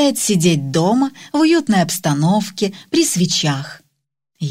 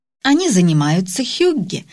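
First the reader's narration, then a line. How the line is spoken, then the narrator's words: Plain. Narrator (Russian): ответила Пернилле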